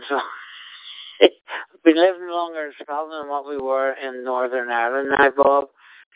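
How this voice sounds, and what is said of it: Strong Irish accent. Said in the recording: “I've still got a strong Irish accent”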